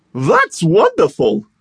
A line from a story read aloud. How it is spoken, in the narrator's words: cried the Hatter